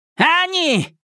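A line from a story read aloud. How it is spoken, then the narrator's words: Shouted. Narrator (Russian): крикнул Темса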